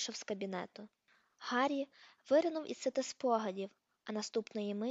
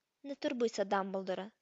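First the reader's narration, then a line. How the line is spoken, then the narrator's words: Cold. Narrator (Ukrainian): сказав холодно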